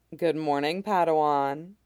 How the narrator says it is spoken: she said

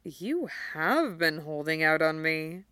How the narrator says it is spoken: murmured, delighted

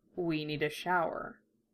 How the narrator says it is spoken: he mumbled, his voice rough

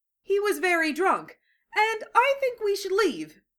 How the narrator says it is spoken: Lee said, his voice pitched higher than usual

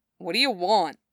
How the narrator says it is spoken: He grumbles

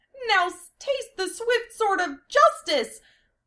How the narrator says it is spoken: Amelia cried out her lines from the script

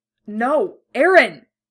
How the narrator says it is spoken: Armin cries

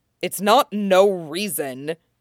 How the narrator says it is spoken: Gendry snaps

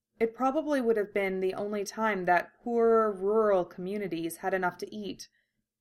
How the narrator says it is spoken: he murmurs

